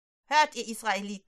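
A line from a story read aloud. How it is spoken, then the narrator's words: Calling out. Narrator (German): ruft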